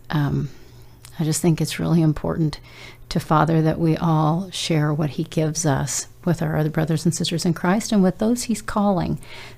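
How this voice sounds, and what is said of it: Slightly raspy voice. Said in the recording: “My voice is a little raspy today.”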